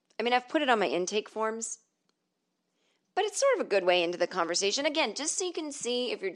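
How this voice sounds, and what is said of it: Usual voice. Nothing is said of it.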